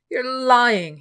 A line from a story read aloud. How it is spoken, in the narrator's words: he shouted